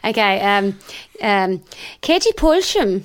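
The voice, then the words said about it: Put-on Norwegian accent. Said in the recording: “a bit of a Norwegian accent... That's quite good... That is quite good, actually.”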